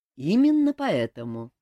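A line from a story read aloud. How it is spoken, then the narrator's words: Calm explaining. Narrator (Russian): спокойно пояснил король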